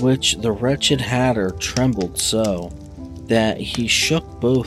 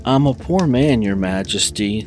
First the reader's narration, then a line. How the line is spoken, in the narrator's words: the Hatter began in a trembling voice